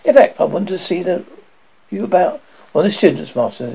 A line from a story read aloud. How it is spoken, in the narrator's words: he said coolly